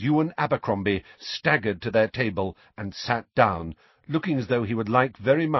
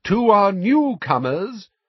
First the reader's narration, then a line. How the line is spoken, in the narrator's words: said Dumbledore in a ringing voice